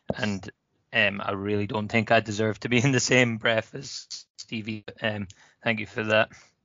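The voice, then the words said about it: Hoarse, partly lost voice. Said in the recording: “My voice is still a bit gone from the game yesterday.”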